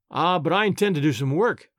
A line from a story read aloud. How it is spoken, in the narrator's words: answered